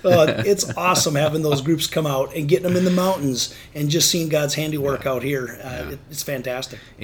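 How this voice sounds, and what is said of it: Wisconsin accent. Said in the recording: “he's got a Wisconsin accent.”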